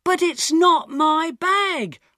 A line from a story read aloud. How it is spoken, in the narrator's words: I shouted